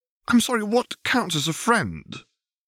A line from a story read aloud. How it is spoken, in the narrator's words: Hermione retorted hotly